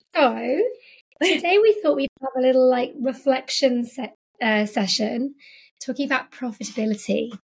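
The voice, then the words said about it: Husky voice. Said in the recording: “my voice is a little bit husky today... it's a little husky”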